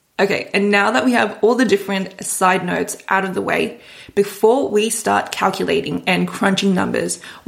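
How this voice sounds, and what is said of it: Slightly hoarse, sore-throated voice. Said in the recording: “If I sound a little bit funny, ... I have a little bit of a sore throat. ... So excuse me if I sound a little bit funny”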